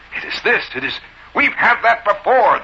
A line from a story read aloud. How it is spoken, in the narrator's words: the bellman indignantly said